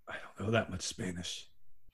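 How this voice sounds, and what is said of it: Gravelly Batman-style character voice. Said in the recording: “Why are you doing it in a Batman voice?”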